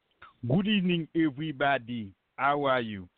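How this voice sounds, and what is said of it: Bad fake Haitian accent. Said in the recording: “you did a fake Haitian accent ... That sounded bad”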